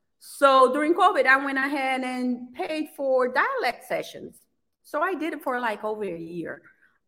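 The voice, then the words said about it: Heavy non-native English accent. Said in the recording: “my accent is kind of lowered ... I still feel like I have a lot, very heavy”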